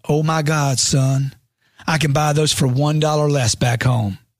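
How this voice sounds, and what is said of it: Southern US accent. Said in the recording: “She said in her southern accent”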